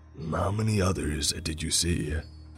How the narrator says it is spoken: one man asked gruffly

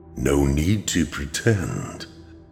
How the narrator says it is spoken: the figure said in a warm, mellow voice

